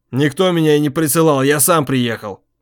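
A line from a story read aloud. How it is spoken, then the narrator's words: Sudden sharp loud. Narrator (Russian): неожиданно резко и громко сказал Володя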